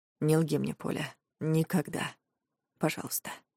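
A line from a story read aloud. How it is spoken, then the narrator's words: Whispered. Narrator (Russian): прошептал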